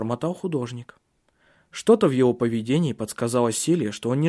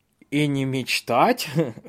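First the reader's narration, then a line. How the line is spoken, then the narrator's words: Laughing. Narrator (Russian): рассмеялся Бенедикт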